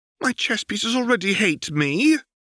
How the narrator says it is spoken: Corvus whined

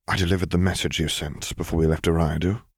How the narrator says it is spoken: he murmured

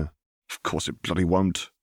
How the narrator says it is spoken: Harry grumbled

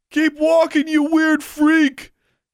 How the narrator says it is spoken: yelled one of the boys

